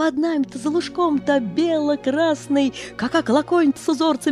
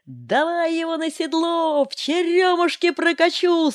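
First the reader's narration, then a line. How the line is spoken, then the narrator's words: Joyful, frightening shout. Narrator (Russian): крик отца, и радостно, и страшно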